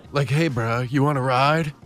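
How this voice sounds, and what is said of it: Imitates another person's voice. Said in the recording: “that your Keanu impression? ... Oh my God, that's so bad.”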